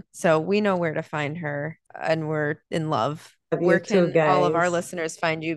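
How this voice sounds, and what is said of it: Tearful, emotional voice. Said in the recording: “you can hear it in my voice. ... I'm literally in tears after this one.”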